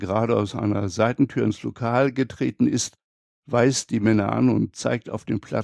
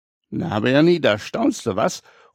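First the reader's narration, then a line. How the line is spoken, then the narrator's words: Calling out. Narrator (German): ruft Clara ihm zu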